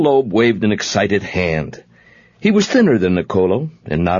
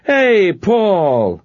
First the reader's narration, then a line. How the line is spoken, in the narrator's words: Niccolo, his face clearing on the moment, shouted